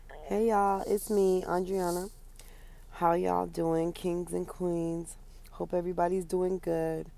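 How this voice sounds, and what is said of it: Hoarse, partly lost voice. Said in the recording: “I lost my voice a little bit. I told you guys I wasn't feeling well”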